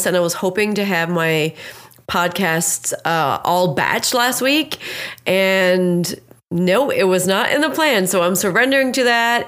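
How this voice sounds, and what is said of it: Sick-sounding voice. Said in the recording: “as you can tell by my voice and how I sound, your girl is still really sick”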